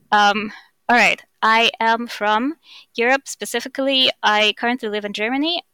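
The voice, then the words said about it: Russian accent. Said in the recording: “I am Russian, if you can't tell by my accent.”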